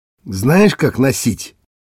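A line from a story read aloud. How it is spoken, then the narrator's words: Angry hiss. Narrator (Russian): зло шипит на меня русский, Захар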